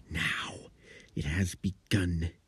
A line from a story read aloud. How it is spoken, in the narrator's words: He hissed